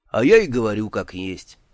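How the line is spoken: Sighing. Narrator (Russian): вздохнул он

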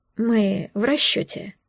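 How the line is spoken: Calm. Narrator (Russian): спокойно заметил он

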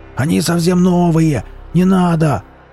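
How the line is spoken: Yell. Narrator (Russian): завопил Велес

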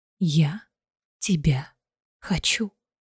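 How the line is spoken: Whisper. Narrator (Russian): прошептала Айлина

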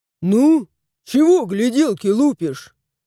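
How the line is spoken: Grumbling. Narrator (Russian): заворчал тот

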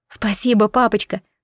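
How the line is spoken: Whisper. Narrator (Russian): прошептала я

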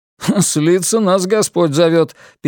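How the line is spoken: Snide chuckling interruption. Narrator (Russian): перебил Бернард, хохотнув ехидно

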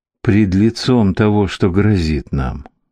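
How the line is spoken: Sighing. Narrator (Russian): вздохнул

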